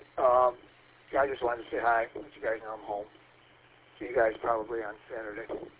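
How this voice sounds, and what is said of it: Weak, fading voice. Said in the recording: “your audio is pretty light ... I'm losing my voice.”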